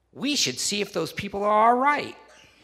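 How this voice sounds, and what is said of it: Imitates another person's voice. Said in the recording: “does the best Kenny impersonation. I don't think I probably do that great a job, but I'll try to do it as closely as possible.”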